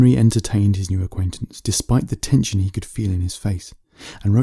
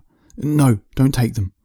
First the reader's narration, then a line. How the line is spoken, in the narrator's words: smiled nervously, feeling part of his mind slipping away